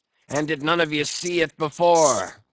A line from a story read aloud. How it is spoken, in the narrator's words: cried Ahab, hailing the perched men all around him